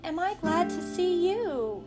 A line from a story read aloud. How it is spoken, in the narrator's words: cried Jen